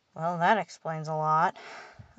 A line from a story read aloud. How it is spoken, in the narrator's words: I sighed